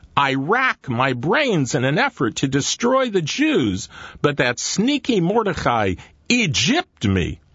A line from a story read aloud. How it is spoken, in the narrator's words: Haman cried